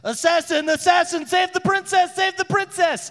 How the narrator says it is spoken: one of them's yelling

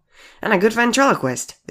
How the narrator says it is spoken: they squeaked

